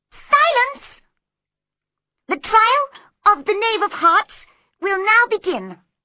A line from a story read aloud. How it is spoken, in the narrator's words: the White Rabbit called out loudly